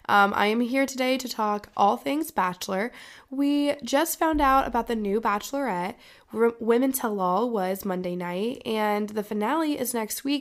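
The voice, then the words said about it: Sick, congested, deeper-sounding voice. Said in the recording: “you may not recognize my voice ... I have a little bit of a cold ... I may sound like a man”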